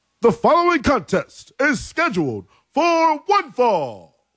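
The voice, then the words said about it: Bad wrestling ring announcer voice. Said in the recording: “that was kind of like Howard Finkel-y. That was a bad Tony Chimmel impersonation.”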